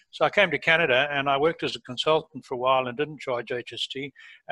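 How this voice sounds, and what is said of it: Non-Canadian accent, lived in Africa. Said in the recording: “As you can hear from my accent, I'm not a born Canadian, and I lived and worked in Africa for most of my life”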